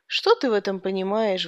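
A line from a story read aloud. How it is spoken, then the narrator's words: Sighing. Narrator (Russian): вздохнул я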